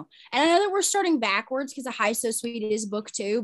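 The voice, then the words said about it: American Southern accent. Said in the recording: “I'm Southern ... the Southern accent makes for horrible pronunciation”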